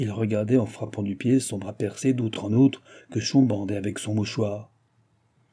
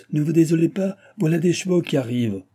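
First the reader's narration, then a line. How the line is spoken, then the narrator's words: Shout. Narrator (French): cria le maître de poste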